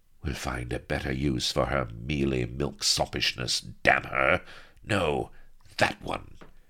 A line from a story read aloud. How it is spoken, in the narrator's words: snapped Sheba, and drawled cruelly